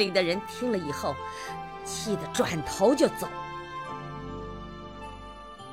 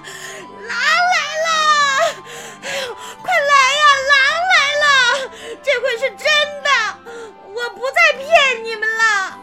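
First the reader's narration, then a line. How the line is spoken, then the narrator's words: Desperate loud shouting child. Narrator (Chinese): 放羊的孩子真的急了，他扯破了嗓子，大声喊着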